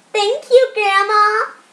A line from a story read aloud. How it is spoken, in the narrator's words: both children exclaimed as they hugged her tight